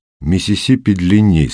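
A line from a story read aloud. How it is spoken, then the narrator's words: Calm objection. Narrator (Russian): спокойно возразил Костя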